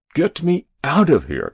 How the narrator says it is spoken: cried the president

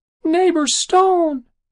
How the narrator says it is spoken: squeaked

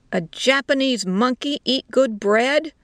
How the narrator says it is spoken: the soldier shouted

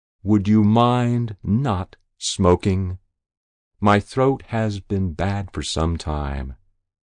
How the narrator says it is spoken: He smiled provocatively and asked very slowly

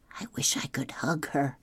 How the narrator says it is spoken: Claudia whispered

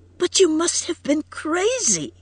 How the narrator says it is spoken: cried Edith brokenly

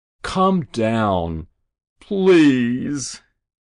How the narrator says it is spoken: Rabbi Binder groaned

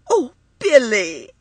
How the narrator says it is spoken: she cried

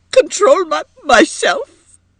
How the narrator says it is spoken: exclaimed Edith brokenly

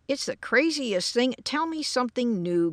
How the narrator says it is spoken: growled George

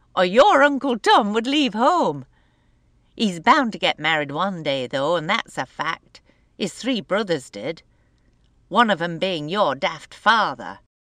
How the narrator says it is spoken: she said with a laugh

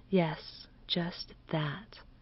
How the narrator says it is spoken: did Miss Fulton murmur

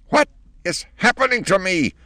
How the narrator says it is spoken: shrieked the old lady under the sink

